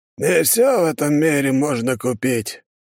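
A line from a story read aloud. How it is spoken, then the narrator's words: Sad sigh. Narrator (Russian): старик и грустно вздохнул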